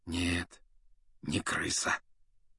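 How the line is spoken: Quiet confirmation. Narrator (Russian): негромко подтвердил Люпин

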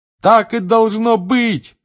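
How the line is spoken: Loudest shouting. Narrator (Russian): громче всех кричал Рон

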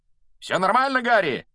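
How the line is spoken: Shouted mid-flight. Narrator (Russian): на лету прокричал Фред

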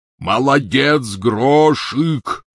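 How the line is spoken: Shouted. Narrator (Russian): крикнул он в проем

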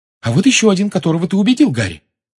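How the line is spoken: Excited exclamation. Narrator (Russian): возбужденно воскликнула Гермиона

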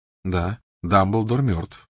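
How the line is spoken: Calm. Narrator (Russian): спокойно откликнулся Гарри

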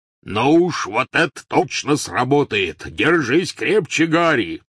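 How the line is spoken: Yelled. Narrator (Russian): заорал Хагрид

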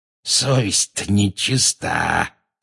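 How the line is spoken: Wheezing. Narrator (Russian): просипел он

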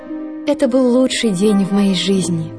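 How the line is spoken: Sighing. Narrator (Russian): только и вздохнула она

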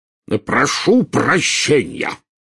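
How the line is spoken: Furious roar. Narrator (Russian): взревел, чуть ли не топая ногами

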